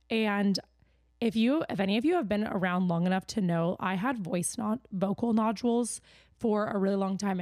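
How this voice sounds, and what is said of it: Raspy, strained voice. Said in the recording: “my voice is a little raspy and my voice kind of hurts, so it might crack a little bit sometimes”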